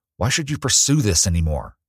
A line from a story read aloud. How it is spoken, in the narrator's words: She answered curtly